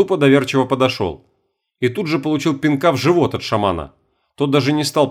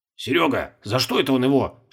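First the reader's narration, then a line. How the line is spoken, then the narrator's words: Whispered. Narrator (Russian): шепнул Колобков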